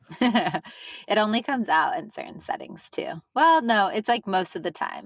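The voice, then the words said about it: Drawn-out Valley Girl accent. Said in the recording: “I guess I do hear your Valley Girl accent still... a true Valley Girl accent is like long and drawn”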